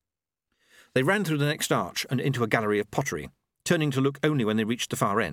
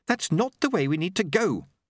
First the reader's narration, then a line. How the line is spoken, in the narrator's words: Susan snapped